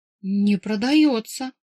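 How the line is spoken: Guilty babbling, sighing. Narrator (Russian): Виновато залепетала самая бойкая, вздохнула

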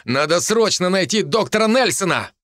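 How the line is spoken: Shouted while running. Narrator (Russian): выкрикнув на бегу

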